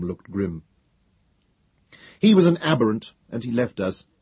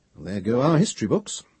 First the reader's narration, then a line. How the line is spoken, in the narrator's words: Trevise stared blankly for several moments, then muttered